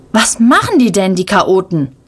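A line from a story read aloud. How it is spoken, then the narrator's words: Thundering voice. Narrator (German): donnert Ronja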